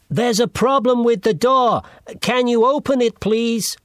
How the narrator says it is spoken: he shouted

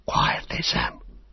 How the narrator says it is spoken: Frodo whispered

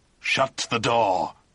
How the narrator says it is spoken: he grunted

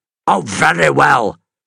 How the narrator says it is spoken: Carter snapped

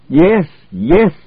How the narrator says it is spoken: shouted Schwartz defiantly

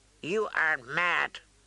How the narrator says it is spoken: the god's wife said hoarsely

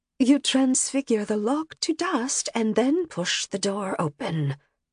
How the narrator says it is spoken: she whispered

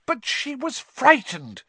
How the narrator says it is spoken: Hermione burst out angrily

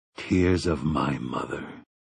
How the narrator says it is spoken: he said in a low voice

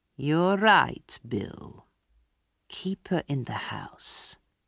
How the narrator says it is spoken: Fagin said slowly

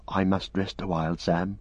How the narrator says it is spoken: whispered Frodo

